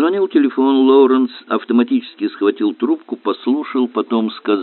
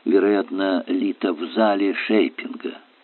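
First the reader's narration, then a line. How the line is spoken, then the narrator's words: Muffled whisper. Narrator (Russian): Прикрыв микрофон ладонью, он шепнул мне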